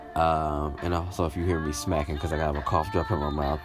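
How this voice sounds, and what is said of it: Nasal, congested voice. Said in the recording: “forgive me if I sound a little nasally ... I may cough throughout this entire episode”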